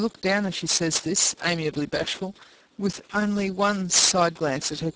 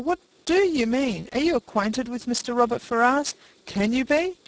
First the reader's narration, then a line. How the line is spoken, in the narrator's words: cried Eleanor